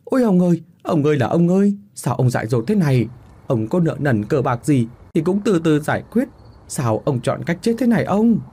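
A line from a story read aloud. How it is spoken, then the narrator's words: Anguished wailing cry. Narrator (Vietnamese): Vừa hay nhìn thấy lão biểu đang treo cổ, 2 thằng mới la lên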